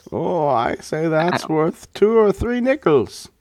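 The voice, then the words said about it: Put-on hoity-toity English accent. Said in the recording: “I gave New England reporters a English accent ... hoity-toity”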